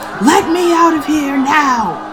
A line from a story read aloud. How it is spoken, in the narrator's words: crying hysterically, cursing, yelling, screaming